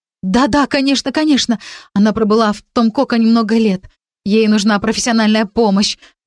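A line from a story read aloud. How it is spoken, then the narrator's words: Excited rapid chatter. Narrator (Russian): взволнованно зачастила я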